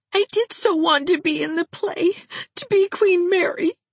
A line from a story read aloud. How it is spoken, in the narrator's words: she sobbed